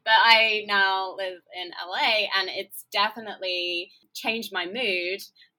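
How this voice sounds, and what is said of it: English accent. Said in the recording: “I'm English, as you can tell from my accent”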